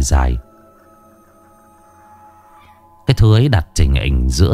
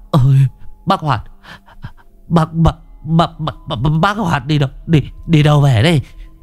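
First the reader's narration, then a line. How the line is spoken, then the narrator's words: Stammering. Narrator (Vietnamese): lắp bắp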